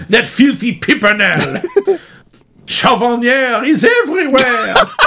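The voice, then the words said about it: Exaggerated fake French accent. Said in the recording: “Can you do your outrageous French accent?”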